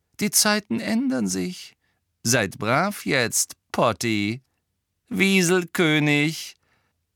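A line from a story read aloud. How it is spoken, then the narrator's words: Hearty laughter. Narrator (German): Er lachte aus vollem Herzen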